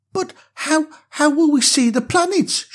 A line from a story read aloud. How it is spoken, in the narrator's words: stammered, still feeling a little scared